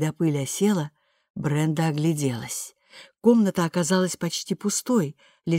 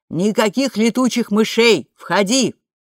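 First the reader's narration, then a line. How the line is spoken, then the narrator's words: Shout. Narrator (Russian): Бренда крикнула Мэгги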